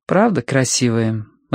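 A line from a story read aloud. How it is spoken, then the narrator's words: Indifferent voice. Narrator (Russian): равнодушным голосом сказала Минкс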